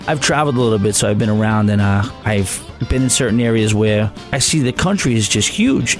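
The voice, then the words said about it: New York area accent. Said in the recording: “you definitely have a New York area accent”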